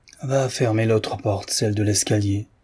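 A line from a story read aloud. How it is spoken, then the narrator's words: After a long sigh. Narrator (French): dit le vieillard après un soupir prolongé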